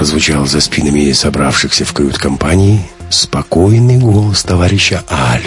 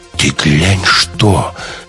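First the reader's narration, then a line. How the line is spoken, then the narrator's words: Jokester exclaiming. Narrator (Russian): воскликнул балагур Конягин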